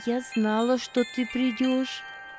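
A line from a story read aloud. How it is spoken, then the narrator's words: Tender. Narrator (Russian): ласково проговорила она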